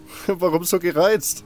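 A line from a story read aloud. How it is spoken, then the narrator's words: Laughing. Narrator (German): lachte ich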